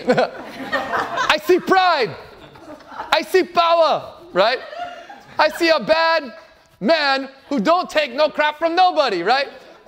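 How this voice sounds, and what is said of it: Put-on Jamaican accent. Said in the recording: “I'll do my Jamaican accent.”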